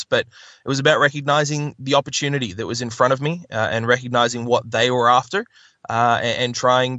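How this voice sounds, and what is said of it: Mixed Canadian and Australian accent. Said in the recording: “the accent being unusual, and anybody listening right now can probably tell that. A combination of Canadian and Australian.”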